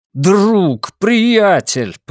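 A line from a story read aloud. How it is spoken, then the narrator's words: Shout. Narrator (Russian): прокричал я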